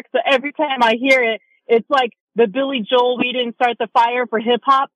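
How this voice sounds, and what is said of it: Slight New York accent. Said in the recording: “I caught a little New York accent there, too.”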